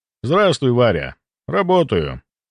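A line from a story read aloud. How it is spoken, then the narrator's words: Calm. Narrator (Russian): ответил спокойно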